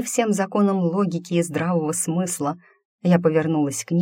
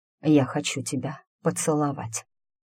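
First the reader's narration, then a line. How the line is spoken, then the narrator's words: Hoarse with desire. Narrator (Russian): хриплый от желания голос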